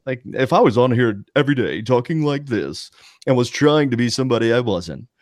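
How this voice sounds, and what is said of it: Put-on polished radio announcer voice. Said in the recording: “my best radio voice”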